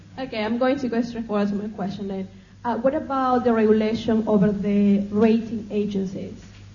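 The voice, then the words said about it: Voice affected by a cold. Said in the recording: “I have a cold.”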